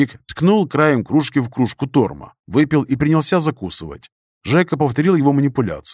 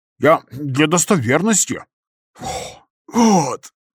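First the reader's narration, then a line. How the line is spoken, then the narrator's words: Exhaled while chewing. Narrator (Russian): Выдохнул, проживав Игрик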